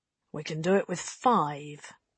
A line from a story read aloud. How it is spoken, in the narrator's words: the mutineer chief said quietly